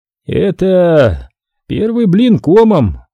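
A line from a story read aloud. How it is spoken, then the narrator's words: Sigh. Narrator (Russian): вздохнул Корсин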